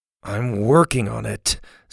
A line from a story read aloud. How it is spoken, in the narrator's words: Susie grumbled